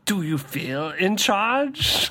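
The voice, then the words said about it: Bad intimidating villain voice imitation. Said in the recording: “Bane-ism ... you have to sound really intimidating ... Intimidating and sarcastic ... Oh my God, that's so bad.”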